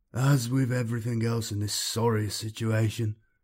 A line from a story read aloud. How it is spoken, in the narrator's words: Cortez moaned